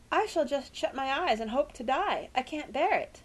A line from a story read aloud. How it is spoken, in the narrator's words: quavered Tess